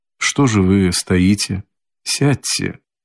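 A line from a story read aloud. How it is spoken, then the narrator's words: Suddenly soft, gentle voice. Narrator (Russian): проговорил он вдруг переменившимся, тихим и ласковым голосом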